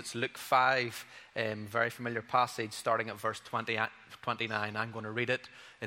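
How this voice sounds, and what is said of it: Speaks with a regional accent. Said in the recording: “Enjoy the accent.”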